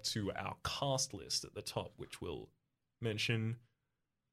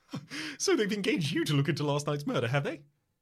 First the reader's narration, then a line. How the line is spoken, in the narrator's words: He laughs